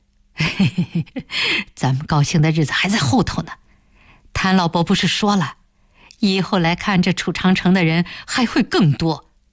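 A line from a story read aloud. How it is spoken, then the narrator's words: Laughing happily. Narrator (Chinese): 开田一听，才又笑了起来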